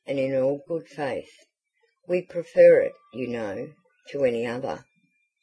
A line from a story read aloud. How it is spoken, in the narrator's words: said the lady gravely